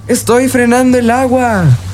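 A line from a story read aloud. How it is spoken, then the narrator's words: Shouted. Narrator (Spanish): gritó Peter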